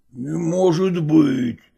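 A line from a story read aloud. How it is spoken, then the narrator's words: Muttered. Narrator (Russian): пробормотал купец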